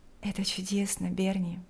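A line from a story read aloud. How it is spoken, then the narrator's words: Quiet. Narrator (Russian): тихо сказала Лика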